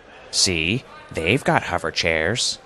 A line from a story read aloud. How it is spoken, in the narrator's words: grumbled Arthur